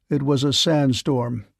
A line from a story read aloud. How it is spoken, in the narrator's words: said Redfeather coldly